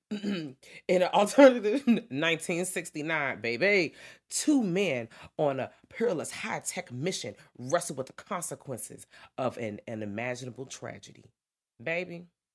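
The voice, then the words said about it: Dramatic movie trailer narrator voice. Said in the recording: “that trailer voice is the best. Doom, doom, doom.”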